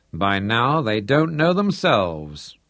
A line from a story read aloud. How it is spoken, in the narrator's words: Hendrik chuckled